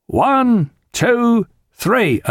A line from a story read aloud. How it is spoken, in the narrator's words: they all bellowed